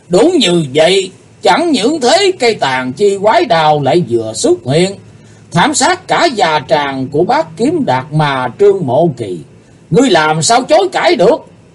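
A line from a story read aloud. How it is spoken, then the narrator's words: Booming thunderous laughter. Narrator (Vietnamese): Chí Tôn cười to hơn, giọng cười chấn động như xé tát cả màn tai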